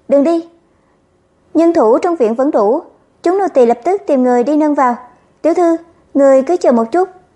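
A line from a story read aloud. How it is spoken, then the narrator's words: Frightened urgent shout. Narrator (Vietnamese): Thúy Hỷ và Thúy Bình mới sợ hãi, vội vàng hô lớn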